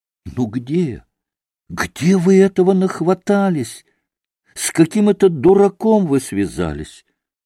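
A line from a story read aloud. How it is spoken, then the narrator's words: Exclaiming. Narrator (Russian): воскликнул Алеша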